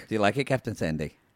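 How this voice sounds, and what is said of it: Badly done put-on accent. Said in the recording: “That's a terrible accent.”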